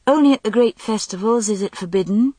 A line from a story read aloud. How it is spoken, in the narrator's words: said